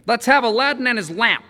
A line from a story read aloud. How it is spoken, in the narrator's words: he snapped